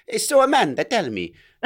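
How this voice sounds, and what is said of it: Put-on accent. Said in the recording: “nice accent.”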